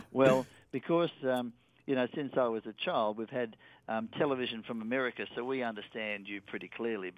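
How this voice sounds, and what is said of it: Australian accent. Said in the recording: “you don't get too many Australian TV shows, so you don't get to hear our accent... once people get a hang of my accent”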